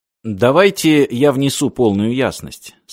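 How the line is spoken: Plain. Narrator (Russian): сказал Мартин

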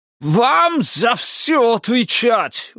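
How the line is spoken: Shouted. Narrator (Russian): выкрикнул он

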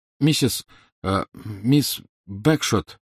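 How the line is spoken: Slightly shaky call. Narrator (Russian): окликнул Гарри слегка дрожащим голосом

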